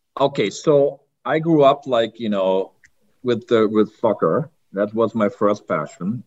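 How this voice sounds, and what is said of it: German accent. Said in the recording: “he's of German descent, so you'll see that you'll hear that in the accent.”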